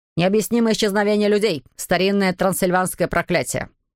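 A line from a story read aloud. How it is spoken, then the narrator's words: Curt clipped speech. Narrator (Russian): отрывисто произнес преподаватель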